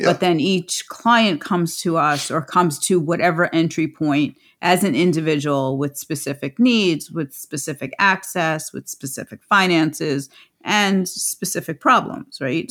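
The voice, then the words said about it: New York accent. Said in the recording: “I still sound very New York.”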